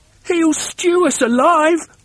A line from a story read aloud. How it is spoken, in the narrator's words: wailed the second one